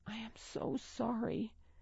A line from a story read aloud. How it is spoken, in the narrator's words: she whispered